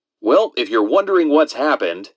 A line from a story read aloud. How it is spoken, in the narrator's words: Dan Roan laughed